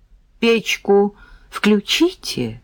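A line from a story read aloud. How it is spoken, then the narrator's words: Timid request. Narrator (Russian): робко попросил Сережка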